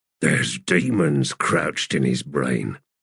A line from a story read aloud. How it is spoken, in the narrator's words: Cuttle said under his breath